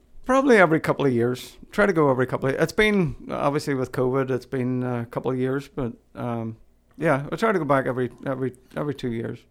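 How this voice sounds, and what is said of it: Toned-down Irish accent. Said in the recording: “I've had to tamp down my accent a lot for you to be able to understand me ... is the accent like so thick?”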